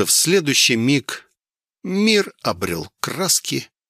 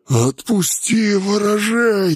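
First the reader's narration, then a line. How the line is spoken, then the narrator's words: Hissing. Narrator (Russian): вновь зашипела вурдалачка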